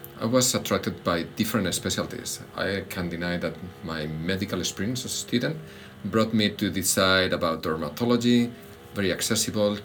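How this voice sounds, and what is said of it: Spanish accent. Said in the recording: “When I was in medical school in Spain, so that's my accent,”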